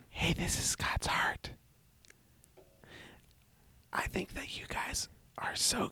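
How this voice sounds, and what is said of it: Whispering. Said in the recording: “close things off in a whisper.”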